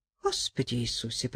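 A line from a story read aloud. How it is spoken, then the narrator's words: Muttering. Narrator (Russian): пробормотала Ингеборга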